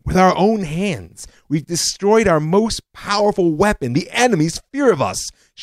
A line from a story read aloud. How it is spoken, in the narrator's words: shouted General Ariel Sharon when he heard the decision